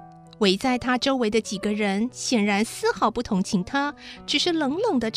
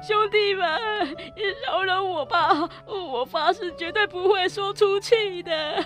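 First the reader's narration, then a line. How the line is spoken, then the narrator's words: Crying, pleading. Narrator (Chinese): 其中一个正跪在地板上缩成一团，不断哭着说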